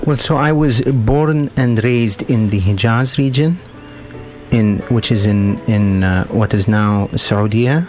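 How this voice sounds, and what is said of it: Noticeable accent, pleasant voice. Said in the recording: “I like your voice very much, and I wonder where your accent comes from ... you have a lovely voice”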